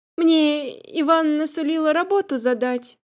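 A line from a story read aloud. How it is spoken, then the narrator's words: Uncertain objection. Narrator (Russian): возразила девушка, правда, неуверенно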